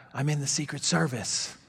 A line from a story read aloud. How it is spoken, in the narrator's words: the man whispered back